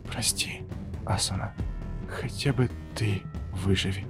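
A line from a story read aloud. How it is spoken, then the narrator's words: Silent mental whisper. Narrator (Russian): я прошептал мысленно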